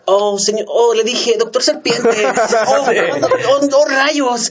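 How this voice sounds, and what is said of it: Mock Latin American dubbing voice, sing-song. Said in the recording (Spanish): “¿por qué los pinches doblajes latinos, güey? Utilizan ese acento ... Y te los dicen cantadito.”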